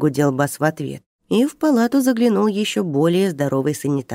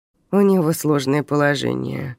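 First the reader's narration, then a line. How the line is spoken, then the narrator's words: Grumble. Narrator (Russian): проворчал первый санитар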